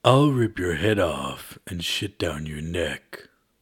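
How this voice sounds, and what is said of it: Duke Nukem impression. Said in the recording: “I think I can do Duke Nukem ... And that was Duke Nukem.”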